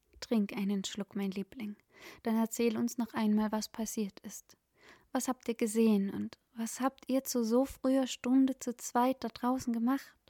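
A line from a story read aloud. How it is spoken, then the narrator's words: Gentle, soothing. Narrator (German): Der Ton war sanft und beruhigend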